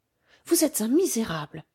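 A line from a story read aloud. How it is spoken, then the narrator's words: Exclaimed. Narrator (French): s'écria-t-elle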